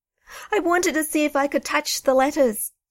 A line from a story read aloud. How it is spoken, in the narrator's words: sobbed Duncan